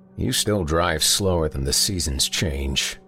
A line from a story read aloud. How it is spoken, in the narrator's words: he grumbled